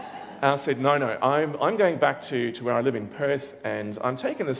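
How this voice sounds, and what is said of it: Usual voice. Nothing is said of it.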